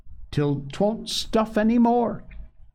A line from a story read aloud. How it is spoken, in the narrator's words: cried Polly